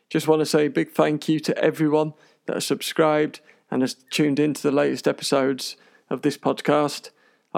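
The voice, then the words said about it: Speaker's own UK accent. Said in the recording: “I hope you can understand my rather strange accent”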